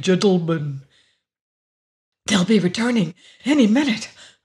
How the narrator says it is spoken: Augie panted anxiously

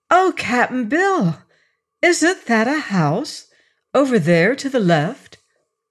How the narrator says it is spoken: she exclaimed

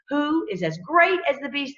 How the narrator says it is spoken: They exclaimed

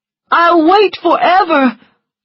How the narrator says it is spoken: cried Charles

